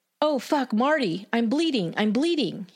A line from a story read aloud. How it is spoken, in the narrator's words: he cried out in shock and anger